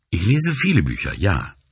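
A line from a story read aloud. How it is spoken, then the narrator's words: Plain. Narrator (German): sagte sie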